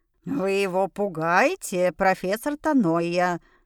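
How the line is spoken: Remark with a chuckle. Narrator (Russian): заметила гномиха, хохотнув

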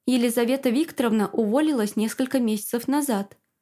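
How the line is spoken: Plain, head nurse. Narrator (Russian): сказала старшая медсестра

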